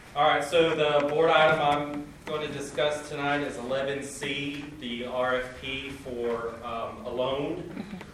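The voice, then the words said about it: Loud projecting teacher voice. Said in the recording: “if you can speak loudly ... Oh, I got a teacher voice.”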